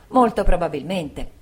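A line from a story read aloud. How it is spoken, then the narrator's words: Exclaimed together. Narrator (Italian): entrambi esclamammo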